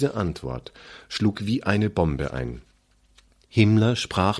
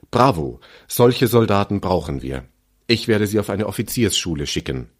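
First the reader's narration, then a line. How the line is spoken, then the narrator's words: Enthusiastic shout. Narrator (German): Himmler war begeistert und rief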